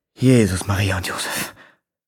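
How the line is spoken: Murmured nearby. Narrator (German): murmelte die Pförtnerin neben mir

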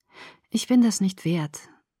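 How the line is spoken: Sad. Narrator (German): sagte traurig

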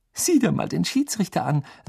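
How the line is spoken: Giggling. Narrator (German): sagte sie kichernd

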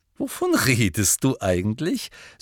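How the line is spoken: Laughing. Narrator (German): sagte Hermine lachend

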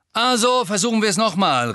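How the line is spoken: Call. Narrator (German): rief Angelina

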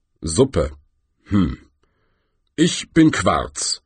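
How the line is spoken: Rumbling rock voice. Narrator (German): brummte der größte Felsen

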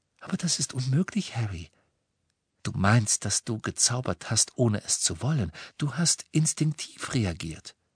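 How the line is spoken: Gentle. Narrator (German): sagte Hermine sanft

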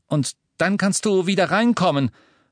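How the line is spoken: Called after her. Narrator (German): rief er ihr nach

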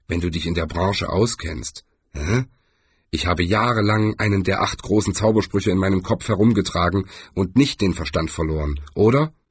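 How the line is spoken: Grumbling. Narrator (German): brummte

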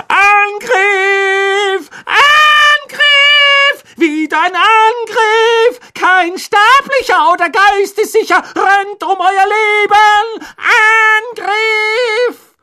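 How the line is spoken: Full-lunged roar. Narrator (German): füllte er seine Lungen und brüllte

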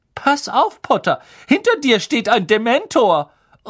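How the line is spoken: Shrieking. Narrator (German): kreischte Lavender Brown

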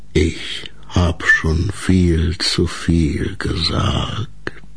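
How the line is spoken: Lowered voice reply. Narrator (German): erwiderte der Laubwolf ebenfalls mit gesenkter Stimme

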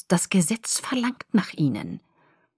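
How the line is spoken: Hissing. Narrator (German): zischte Caius

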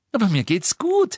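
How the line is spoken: Still giggling. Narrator (German): sagte Lilly immer noch kichernd

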